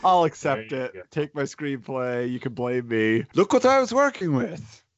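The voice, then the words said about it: Imitates another person's voice. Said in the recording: “That's my Del Toro. ... That was your Del Toro impression?”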